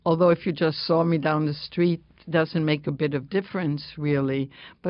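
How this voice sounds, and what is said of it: Slight foreign accent, distinct intonation. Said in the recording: “I have a intonation ... You have a slight accent”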